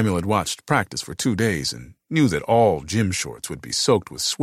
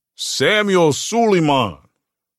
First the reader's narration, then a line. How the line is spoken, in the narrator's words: repeated loudly